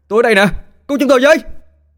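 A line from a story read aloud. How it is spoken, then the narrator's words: Excited shouting. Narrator (Vietnamese): Ba Hào miệng cứ liên tục la hét phấn khích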